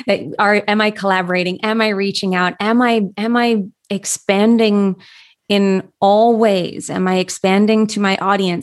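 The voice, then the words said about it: Slightly hoarse, croaky voice. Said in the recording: “I have a little frog in my throat”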